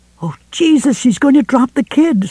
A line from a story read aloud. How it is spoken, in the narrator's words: Sue screamed